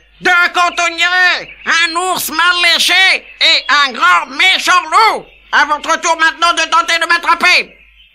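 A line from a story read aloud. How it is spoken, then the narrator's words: Yelled into ear. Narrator (French): hurla la galette dans l'oreille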